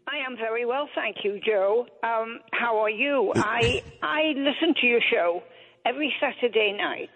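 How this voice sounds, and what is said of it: English Manchester accent. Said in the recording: “that beautiful accent? ... Manchester, England, originally ... We love that English accent.”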